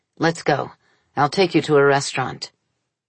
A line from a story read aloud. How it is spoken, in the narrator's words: said to his wife, sharply